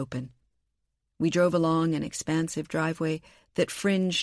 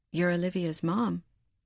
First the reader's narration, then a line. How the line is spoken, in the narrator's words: Kendall said softly